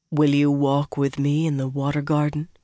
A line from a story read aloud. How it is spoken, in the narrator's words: he said softly